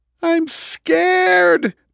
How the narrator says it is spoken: Diane screamed, tears streaming down her face

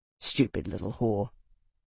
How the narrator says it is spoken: He said quietly

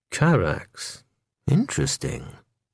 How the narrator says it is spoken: he murmured in an inscrutable tone

